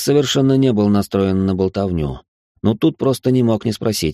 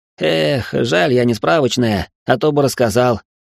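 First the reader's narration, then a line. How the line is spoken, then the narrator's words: Bursting into laughter. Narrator (Russian): расхохотался Стас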